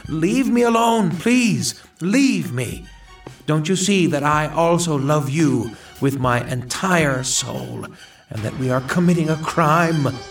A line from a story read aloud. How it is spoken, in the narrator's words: she abruptly lifted my head and cried